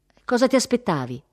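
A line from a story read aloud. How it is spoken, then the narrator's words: Sighing. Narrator (Italian): sospirò Ursula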